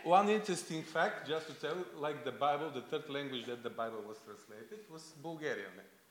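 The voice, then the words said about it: English with a Bulgarian accent. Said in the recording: “You hear the English Bibles read with Bulgarian accent.”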